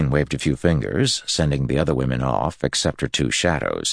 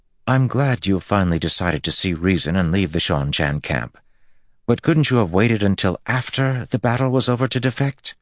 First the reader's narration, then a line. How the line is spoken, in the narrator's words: Egwene said in a suffering tone